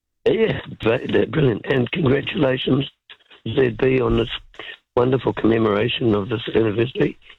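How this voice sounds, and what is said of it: Hoarse, sore-throated voice. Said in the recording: “My radio voice is compromised. I've got a throat and some Vicks vapor rub and cough drops”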